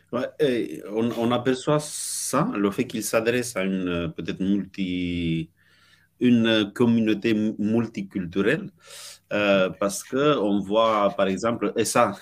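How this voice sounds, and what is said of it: Slight put-on Romanian accent. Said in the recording (French): “tu avais quand un petit accent roumain multiculturel”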